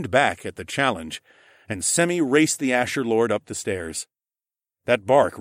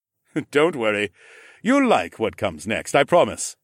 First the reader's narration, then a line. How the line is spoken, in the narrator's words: the Ramlord laughed